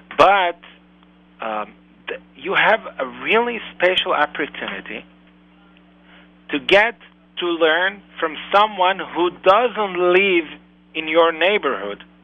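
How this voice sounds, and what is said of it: Foreign accent. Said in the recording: “how did I get this accent?”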